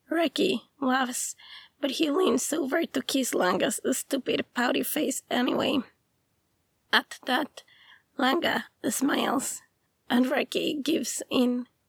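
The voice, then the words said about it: Sick-sounding voice. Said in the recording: “sorry for my voice ... do not record ... when sick”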